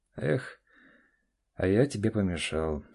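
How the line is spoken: Mock-regretful sigh. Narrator (Russian): вздохнул Олег с притворным сожалением

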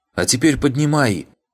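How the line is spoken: Shouted. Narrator (Russian): крикнула штучка

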